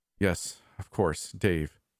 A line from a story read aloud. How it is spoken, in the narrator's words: he sighed